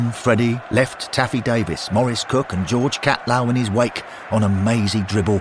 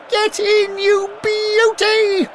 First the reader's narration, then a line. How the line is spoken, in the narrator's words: Henry shouted